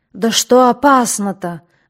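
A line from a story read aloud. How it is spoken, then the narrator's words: Tense exclamation, ruler. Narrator (Russian): воскликнул напряженно вслушивавшийся в бред владыка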